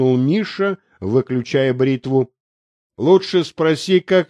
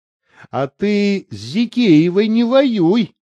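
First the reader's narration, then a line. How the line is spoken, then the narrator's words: Laughing. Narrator (Russian): засмеялась Аня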